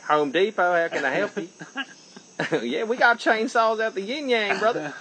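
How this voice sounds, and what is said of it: Put-on Southern accent. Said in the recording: “I'm speaking in a southern accent.”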